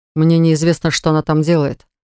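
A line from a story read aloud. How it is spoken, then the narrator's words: Through clenched teeth. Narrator (Russian): процедил Ливон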